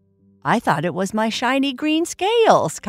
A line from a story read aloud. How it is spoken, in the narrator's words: Kai Kai laughed